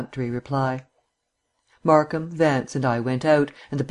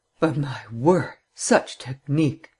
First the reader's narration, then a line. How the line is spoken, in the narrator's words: sighed Vance